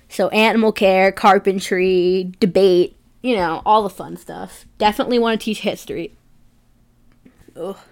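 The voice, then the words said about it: Sick voice with a voice catch. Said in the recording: “I'm sick. That was a weird voice catch.”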